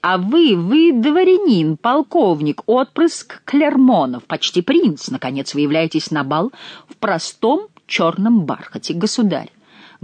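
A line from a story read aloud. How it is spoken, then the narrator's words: Loud. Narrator (Russian): громко сказал Бюсси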